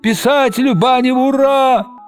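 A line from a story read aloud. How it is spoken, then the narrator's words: Shout from crowd. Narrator (Russian): Кто-то в толпе заорал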